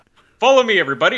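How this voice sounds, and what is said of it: Superman impression, heroic voice. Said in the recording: “Great Superman impersonation.”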